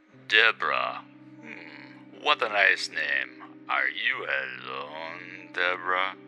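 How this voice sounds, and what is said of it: Low put-on French accent. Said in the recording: “trying to pull off a low French accent”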